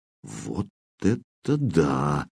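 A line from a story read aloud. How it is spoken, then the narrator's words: Drawn-out drawl. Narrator (Russian): протянул Кирилл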